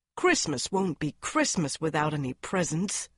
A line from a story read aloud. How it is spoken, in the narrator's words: grumbled Joe, lying on the rug